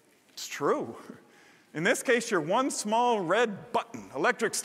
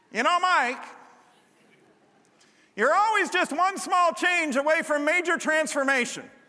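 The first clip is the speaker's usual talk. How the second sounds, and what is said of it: Deliberately bad impression of a pastor. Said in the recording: “going to do a really bad Merv impression”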